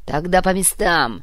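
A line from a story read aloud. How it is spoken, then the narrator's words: Barked. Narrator (Russian): рявкнул Вагис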